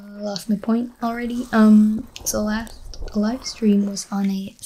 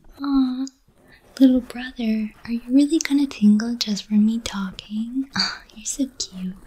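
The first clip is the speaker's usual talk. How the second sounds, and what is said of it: Soft whispery ASMR voice. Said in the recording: “there's my ASMR voice”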